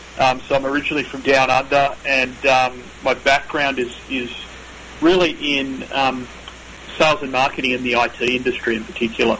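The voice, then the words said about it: Australian accent. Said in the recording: “you can probably tell I'm not from the US, so I've got this is not my Northern Californian accent. This is my Australian accent.”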